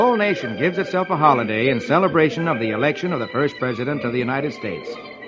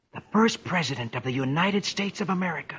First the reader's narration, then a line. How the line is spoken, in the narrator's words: Dick whispers in awe